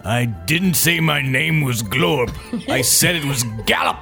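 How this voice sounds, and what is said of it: Angry-sounding character voice. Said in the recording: “I'm not used to the dialect. ... Why do you sound so mad”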